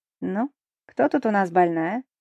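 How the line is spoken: Cheerful voice. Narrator (Russian): спрашивает бодрым голосом

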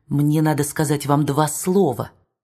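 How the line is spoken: Whisper. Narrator (Russian): Фабрицио шепнул ему

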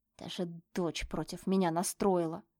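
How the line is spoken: Hissed, sweetly smiling. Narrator (Russian): прошипел Рома, не убирая с лица всю ту же сладкую улыбку

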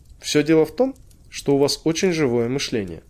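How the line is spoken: Calm explanation. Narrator (Russian): спокойно объяснил доктор

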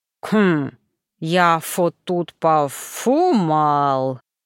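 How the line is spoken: Mumbling with full mouth. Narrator (Russian): прошамкал Гарри, спеша прожевать блинчик

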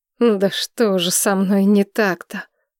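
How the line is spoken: Groaning. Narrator (Russian): простонал он

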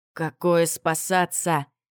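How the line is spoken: Roaring growl. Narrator (Russian): прорычал воевода

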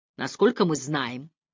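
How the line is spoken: Cold. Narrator (Russian): продолжал судья холодно

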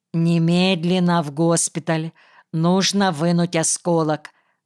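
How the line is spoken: Plain. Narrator (Russian): сказала Мария Сергеевна

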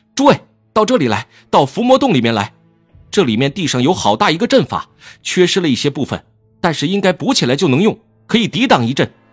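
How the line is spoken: Sudden shout. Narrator (Chinese): 蓝思追忽然冲出来喊道

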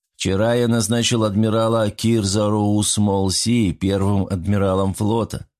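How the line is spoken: Calm with a pause. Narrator (Russian): также спокойно продолжил, сделав паузу

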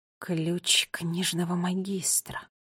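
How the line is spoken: Whispered. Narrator (Russian): прошептала она

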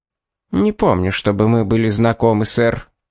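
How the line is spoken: Cold. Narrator (Russian): холодно произнесла она вместо приветствия

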